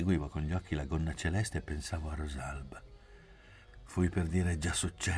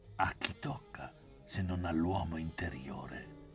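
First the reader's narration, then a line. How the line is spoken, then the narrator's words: Murmuring. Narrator (Italian): mormorò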